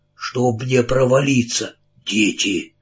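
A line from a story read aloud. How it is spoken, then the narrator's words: Hoarse voice. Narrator (Russian): Хриплый голос сказал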